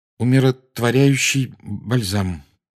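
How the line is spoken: Strained, forced out. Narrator (Russian): выдавил из себя Гарри

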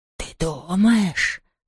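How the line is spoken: Whisper. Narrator (Russian): прошептал Хуга

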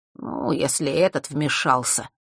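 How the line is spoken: Gritted teeth, trailing off. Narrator (Russian): процедил Фэш, но не завершил фразу

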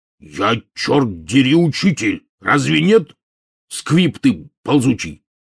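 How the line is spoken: Flaring up, barking angrily. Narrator (Russian): мгновенно вспыхнув, рявкнул Хагрид

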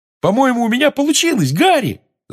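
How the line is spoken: Excited yelling. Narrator (Russian): завопил Симус

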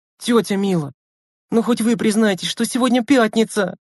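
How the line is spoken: Pleading child. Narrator (Russian): взмолилась девочка

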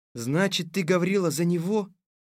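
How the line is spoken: Sad. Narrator (Russian): грустно сказал царь

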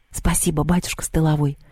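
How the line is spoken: Whisper. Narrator (Russian): добавила шепотом

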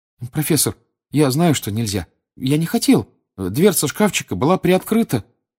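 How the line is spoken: Timid babbling. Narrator (Russian): пролепетал Гарри

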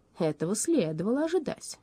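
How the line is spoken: Calm statement. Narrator (Russian): спокойно заявила Шарлотта

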